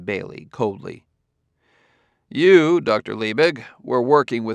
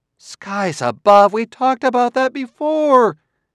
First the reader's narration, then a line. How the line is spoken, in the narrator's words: cried Clarissa in anguish